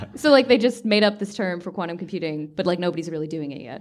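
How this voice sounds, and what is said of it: American accent. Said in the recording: “I'm American... if you couldn't tell by the accent.”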